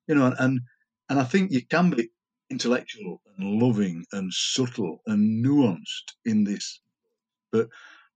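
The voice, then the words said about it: Yorkshire accent. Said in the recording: “professional Yorkshireman ... this is how I speak”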